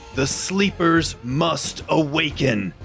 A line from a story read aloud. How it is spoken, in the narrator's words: Ebby Ebby growls and pushes down harder, and the flame gets even greater, and you hear him kind of growl out